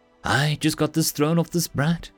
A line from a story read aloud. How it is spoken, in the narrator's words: she said brightly